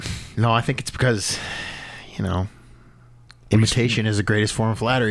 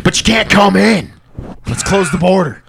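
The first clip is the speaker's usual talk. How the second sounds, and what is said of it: Angry, shouting delivery. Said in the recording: “I got real angry on that one, and I gripped... Dude, I gripped the mic.”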